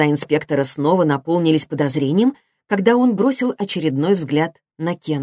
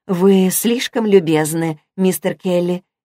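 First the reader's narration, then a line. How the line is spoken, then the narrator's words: Soft, gentle. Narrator (Russian): мягко произнесла Ребекка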